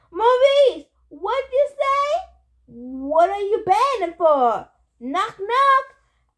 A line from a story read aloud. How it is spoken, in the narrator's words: It must have been Eddie shouted